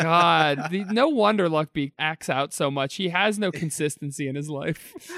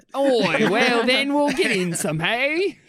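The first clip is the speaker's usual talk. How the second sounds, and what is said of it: Put-on Australian accent. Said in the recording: “do your Australian accent”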